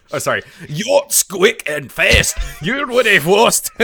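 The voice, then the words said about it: Put-on accent mimicking a cartoon character. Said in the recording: “This accent's probably better than Commander Red's... at least there you're so trying”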